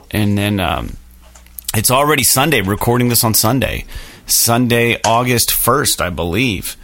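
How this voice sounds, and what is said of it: Tired, slightly wrecked voice. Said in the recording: “I'm kind of tired. My voice is a little wrecked because I played on Thursday also.”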